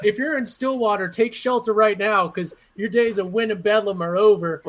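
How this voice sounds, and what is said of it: Mock TV weatherman storm-warning voice. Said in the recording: “But you sound like a weatherman, a meteorologist right now during tornado season.”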